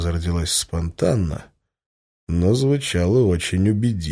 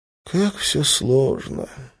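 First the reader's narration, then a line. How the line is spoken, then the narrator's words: Sighing. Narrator (Russian): вздохнул Лас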